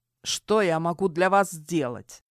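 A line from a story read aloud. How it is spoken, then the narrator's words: Soldier speaking through gritted teeth. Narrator (Russian): Сквозь зубы процедил солдат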